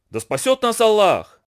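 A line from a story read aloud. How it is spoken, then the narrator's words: Spider exclaiming. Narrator (Russian): воскликнул паук, увидев их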